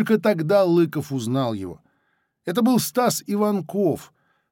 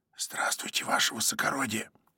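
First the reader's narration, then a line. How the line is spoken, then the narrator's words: Whispered. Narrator (Russian): Незнакомец сказал шепотом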